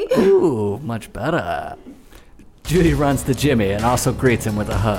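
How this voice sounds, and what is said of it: Usual voice. Nothing is said of it.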